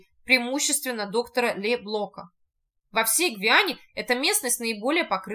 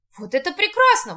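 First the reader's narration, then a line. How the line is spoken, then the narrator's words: Exclaimed. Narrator (Russian): воскликнул Шарль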